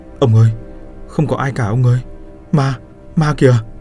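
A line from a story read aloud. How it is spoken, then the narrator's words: Trembling voice. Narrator (Vietnamese): Giác run run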